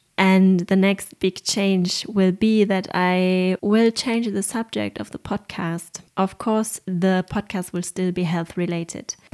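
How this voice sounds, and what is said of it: German accent in English. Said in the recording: “my horrible German accent in English”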